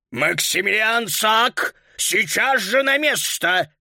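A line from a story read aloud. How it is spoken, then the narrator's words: Deep bass voice. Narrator (Russian): пробасил господин Шнитлих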